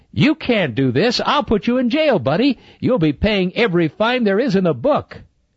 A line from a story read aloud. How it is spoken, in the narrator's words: When he recovered from the shock of it all, he began yelling at Sam